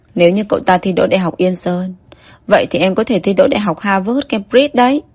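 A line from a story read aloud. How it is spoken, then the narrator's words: Laughing aloud. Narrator (Vietnamese): Trương Nhất Minh bật cười thành tiếng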